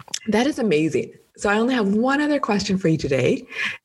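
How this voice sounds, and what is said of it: Strained, fading voice. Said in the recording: “my voice is just leaving me now”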